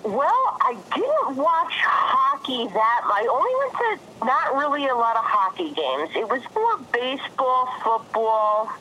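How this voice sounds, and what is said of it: New Jersey accent. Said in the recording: “it's definitely a New Jersey accent that just will never leave”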